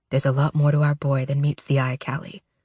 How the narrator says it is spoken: murmurs

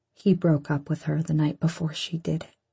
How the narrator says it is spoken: he says quietly

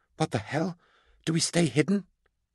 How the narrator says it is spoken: gasped Beckwin

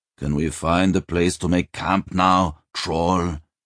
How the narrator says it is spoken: He growled

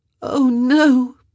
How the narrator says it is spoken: she moaned, the words muffled into the hand she'd clapped over her mouth

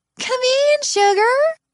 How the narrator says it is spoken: In a syrupy southern drawl I suspect isn't authentic, she says

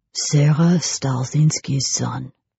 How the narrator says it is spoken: murmured Edouard

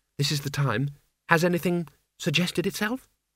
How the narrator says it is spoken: she said quietly

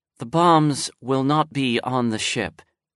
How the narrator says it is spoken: Chung Xin replied calmly

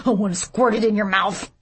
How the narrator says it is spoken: Sweet Timmy blurted

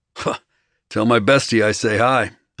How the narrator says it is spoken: snorted

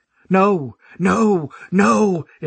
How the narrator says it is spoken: The fucked up voices already screaming

